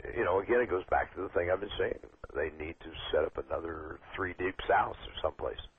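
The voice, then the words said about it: Hoarse voice. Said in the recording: “I'm going hoarse here.”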